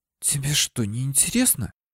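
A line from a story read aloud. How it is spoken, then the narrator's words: Indignant whisper in ear. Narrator (Russian): Возмущенно прошептала она мне в ухо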